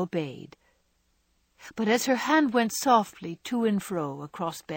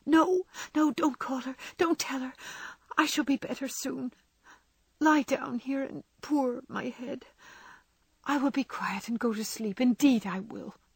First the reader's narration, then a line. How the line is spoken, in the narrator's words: whispering eagerly